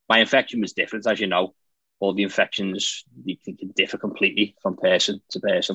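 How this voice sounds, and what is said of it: Non-American, Liverpool English accent. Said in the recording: “clearly you do not have an American accent. ... I'm from Liverpool in the UK, in England.”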